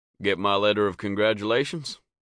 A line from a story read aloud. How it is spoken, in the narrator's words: Sam asked